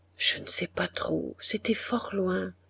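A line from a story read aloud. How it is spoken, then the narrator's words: Very quiet answer. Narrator (French): Il répondit tout bas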